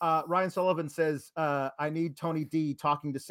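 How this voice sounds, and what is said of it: Usual voice. Nothing is said of it.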